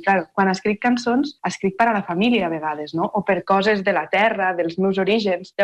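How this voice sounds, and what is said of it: Catalan with Terres de l'Ebre accent. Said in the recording (Catalan): “el teu accent no té res a veure, la teva manera, fins i tot els ritmes, les melodies, tenen un altre top ... parlem com a les Terres de l'Ebre”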